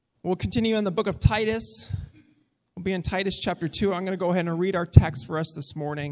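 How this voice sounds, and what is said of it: Slightly crackly, recovering voice. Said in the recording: “My voice is about 90% of the way there. You can probably already tell it's still a little crackly... so I don't have to talk as loud”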